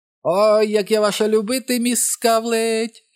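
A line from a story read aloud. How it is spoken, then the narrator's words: Shouted with all his might. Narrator (Ukrainian): щосили закричав Річі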